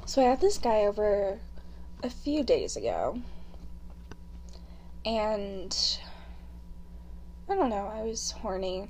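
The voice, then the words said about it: Congested voice from a cold. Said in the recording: “I have a cold, so my voice sounds very gross.”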